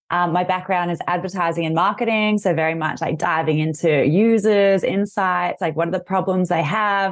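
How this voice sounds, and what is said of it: Australian accent. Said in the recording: “I'm Australian, as you'll hear from my accent”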